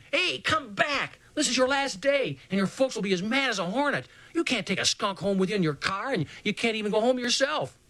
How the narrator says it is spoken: I yelled to him

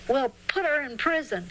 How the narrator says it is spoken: They shouted

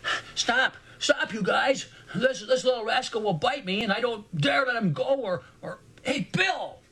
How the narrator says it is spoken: worried voice almost screamed not more than 20 feet behind us

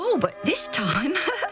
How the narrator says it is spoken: Alf laughed

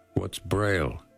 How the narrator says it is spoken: he asked

